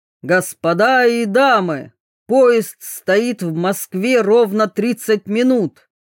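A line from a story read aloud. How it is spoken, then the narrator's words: Loud, slightly solemn announcement. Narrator (Russian): громко объявил проводник чуточку торжественным голосом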